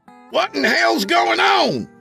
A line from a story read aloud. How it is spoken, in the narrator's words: Craig yelled